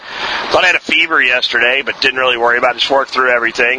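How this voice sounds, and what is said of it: Failing, hoarse sick voice. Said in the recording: “as you can hear, my voice is beginning to fail from some type of crud illness”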